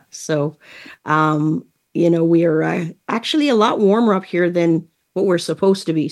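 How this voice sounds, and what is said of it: Distinctive accent, sultry voice. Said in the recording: “your wonderful accent ... my sultry voice”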